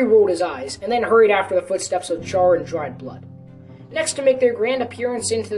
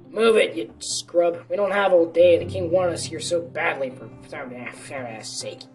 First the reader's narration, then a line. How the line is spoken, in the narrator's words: grumbled